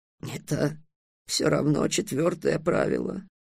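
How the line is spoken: Groaning. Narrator (Russian): простонал Китап

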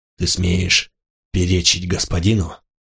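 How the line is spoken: Muffled, ominous, hollow. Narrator (Russian): Голос Мигеру из-под маски звучал глухо, зловеще, как из колодца

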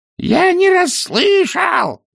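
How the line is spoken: Roar lost in wind. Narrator (Russian): проревел два цветок, но и его голос унесло порывом ветра

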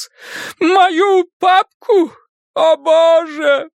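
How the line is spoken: Moaned. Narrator (Russian): простонал он

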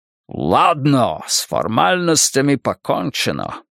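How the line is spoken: Growling. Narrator (Russian): прорычал он

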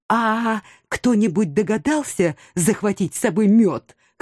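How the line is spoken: Hoarse whisper. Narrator (Russian): хрипло прошептала я

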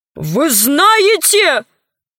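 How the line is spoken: Shouting. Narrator (Russian): закричал он

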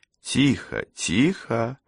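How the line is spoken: Soft gentle voice. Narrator (Russian): мягко промолвила Кэсси

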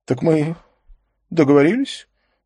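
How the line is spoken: Trembling voice. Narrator (Russian): Дрогнувшим голосом обратился он

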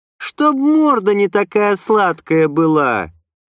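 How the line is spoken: Snide reply. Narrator (Russian): Ехидно ответила Лена

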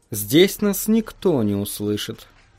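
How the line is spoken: Calm remark. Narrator (Russian): спокойно заметила она

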